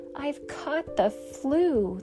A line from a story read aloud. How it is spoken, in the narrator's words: the lion roared